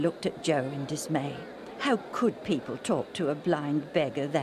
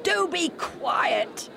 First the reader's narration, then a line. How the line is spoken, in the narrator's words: they shouted